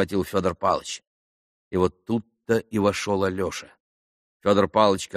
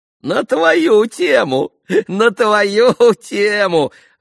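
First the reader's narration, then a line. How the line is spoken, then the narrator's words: Gleeful giggling. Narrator (Russian): радостно хихикал он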